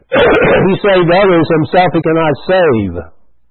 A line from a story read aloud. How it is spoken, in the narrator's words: the chief priest mocking him with the scribes and elders said